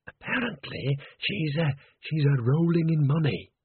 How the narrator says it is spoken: whispered Bucket

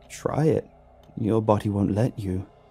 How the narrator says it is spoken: He let out a lifeless chuckle before saying

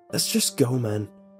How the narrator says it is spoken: Josh pressed

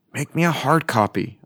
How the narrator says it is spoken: I hissed

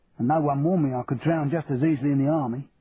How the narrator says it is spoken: Tommy grumbled

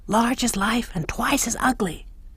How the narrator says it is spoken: Moira whispers back

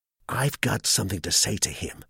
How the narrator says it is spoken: muttered Skelton grimly

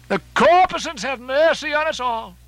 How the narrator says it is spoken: cried Stubb again

